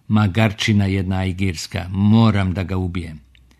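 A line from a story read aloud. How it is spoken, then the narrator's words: Furious, repeating, overlapping voices. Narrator (Serbian): Glasovi su im se nakratko pomešali dok je Zein besno ponavljao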